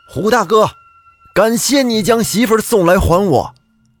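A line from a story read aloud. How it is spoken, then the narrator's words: Loud call. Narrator (Chinese): 他大声的叫道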